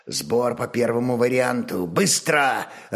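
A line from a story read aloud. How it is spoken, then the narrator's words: Growl from usually gentle man. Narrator (Russian): рыкнул обычно мягкий и невозмутимый хозяин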